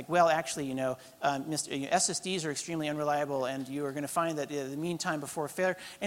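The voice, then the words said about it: Nerdy know-it-all voice. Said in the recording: “I can't do a Denmark accent, but I can do nerd.”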